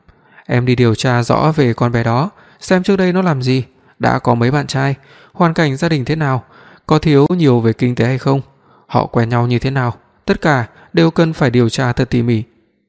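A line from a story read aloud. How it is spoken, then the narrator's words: Resigned sigh. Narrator (Vietnamese): Tôi thở dài đành nói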